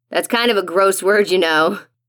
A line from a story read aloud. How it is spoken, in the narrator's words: Dad shouts, laughing